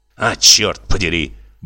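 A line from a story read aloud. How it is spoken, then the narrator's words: Muttered through teeth. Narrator (Russian): бормочете вы сквозь зубы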